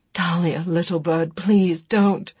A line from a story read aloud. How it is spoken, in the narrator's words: begged